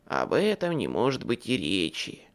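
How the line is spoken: Sighing. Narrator (Russian): вздохнула мать Зима

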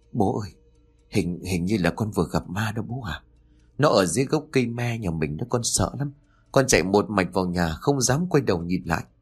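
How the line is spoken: Boy, trembling with fear. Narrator (Vietnamese): Thằng Nam nói bằng giọng điệu đầy run rẩy

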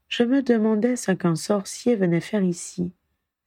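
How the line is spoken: Pensive tone. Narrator (French): dit-il d'un ton pensif

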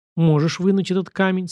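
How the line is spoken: Plain. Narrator (Russian): спросил я

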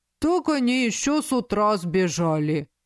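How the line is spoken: Deep bass voice. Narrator (Russian): пробасил

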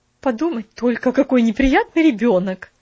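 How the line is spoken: Exclamation. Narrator (Russian): воскликнула она

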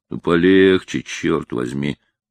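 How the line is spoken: Grumbled. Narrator (Russian): проворчал Лаусон

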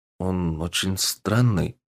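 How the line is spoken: Quiet. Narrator (Russian): тихо произнес некромант

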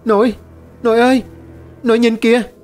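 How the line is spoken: Panicked child's cry. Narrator (Vietnamese): Lập tức nó hoảng hồn la lên

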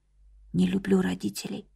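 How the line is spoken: Barely audible repetition. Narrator (Russian): очень тихо, еле слышно повторила слова Чон Мин

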